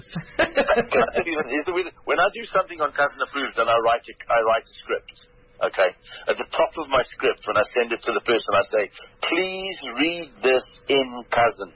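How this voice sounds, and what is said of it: Distinctive own accent. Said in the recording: “you've just got the way to say it as an accent. I can't do the accent. I can certainly do the words, but the accent, I'm afraid, is all yours.”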